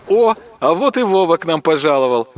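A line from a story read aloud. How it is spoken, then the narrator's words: Laughing. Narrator (Russian): вновь рассмеялась раскачивающаяся на ветке Аида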